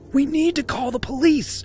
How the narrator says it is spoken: she gasped

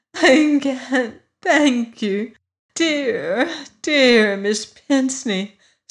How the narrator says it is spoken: sobbed his daughter

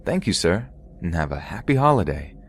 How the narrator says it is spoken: saying in my bubbly voice

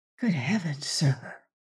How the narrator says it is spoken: he gasped breathlessly

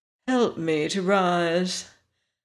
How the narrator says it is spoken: Again the princess yawned, then she said

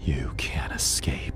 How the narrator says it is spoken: the voice hissed

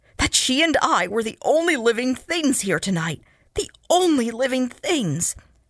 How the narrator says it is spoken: snarled desperately

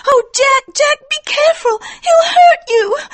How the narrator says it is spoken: cried Etty

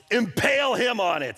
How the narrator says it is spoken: the king blurts out

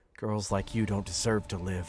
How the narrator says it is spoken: he muttered

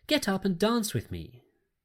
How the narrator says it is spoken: she cried

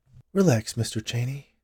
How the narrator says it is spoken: Jillian said in a soothing voice

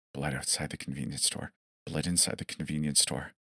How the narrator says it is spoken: The man with a disturbing smile who kept whispering incessantly

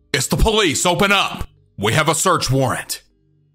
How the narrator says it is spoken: They shout 2 more times

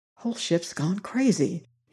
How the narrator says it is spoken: he murmured softly

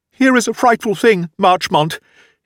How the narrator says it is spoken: he gasped

